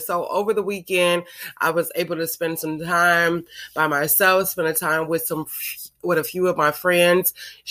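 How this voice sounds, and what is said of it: Voice sounds sick. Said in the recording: “You guys can probably hear it in my voice. Yes, I have been sick. ... my voice is a little, but I've gotten better”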